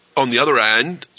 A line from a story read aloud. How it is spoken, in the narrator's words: said the man evenly